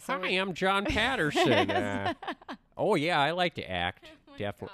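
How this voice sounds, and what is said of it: Put-on Fargo-style accent. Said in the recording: “I don't know where this accent is ... I made you guys sound like you're all from like, ... Fargo.”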